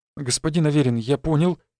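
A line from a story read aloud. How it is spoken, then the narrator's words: Frightened reply. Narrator (Russian): испуганно ответил тот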